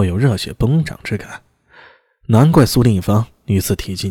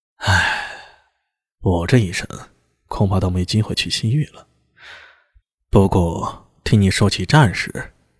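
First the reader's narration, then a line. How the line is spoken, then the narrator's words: Wistful sigh. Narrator (Chinese): 李治……悠悠感叹了一声，说道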